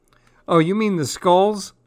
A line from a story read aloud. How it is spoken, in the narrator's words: asked, laughing